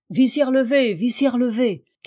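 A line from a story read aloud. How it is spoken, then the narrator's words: Crowd shouting. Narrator (French): cria la foule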